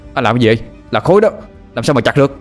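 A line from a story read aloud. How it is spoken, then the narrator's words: Shouting back. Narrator (Vietnamese): Tôi hét trở lại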